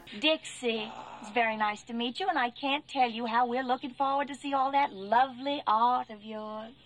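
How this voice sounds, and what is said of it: Fun accent. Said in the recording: “This is her fun accent.”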